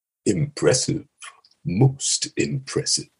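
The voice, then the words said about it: Deep Darth Vader character voice. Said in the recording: “There's a couple of Vader lines ... Actually, genuinely, I thought that was very good. ... Very, very good. ... Very pitch perfect.”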